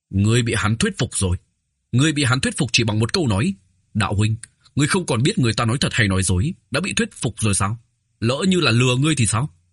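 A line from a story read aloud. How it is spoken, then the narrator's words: Loud voice. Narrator (Vietnamese): Đế Hốt lớn tiếng nói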